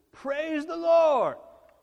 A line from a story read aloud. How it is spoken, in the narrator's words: she would stand on her porch and she would scream